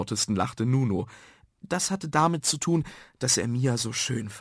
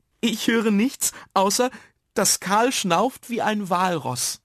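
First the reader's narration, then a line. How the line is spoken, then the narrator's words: Cheerful remark. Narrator (German): meinte die lustige Mia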